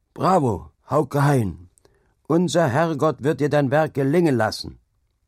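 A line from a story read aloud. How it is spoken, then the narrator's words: Old man calling loudly. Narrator (German): der alte Jewe Manners rief laut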